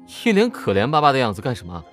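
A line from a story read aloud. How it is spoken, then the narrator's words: Teasing laugh. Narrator (Chinese): 笑他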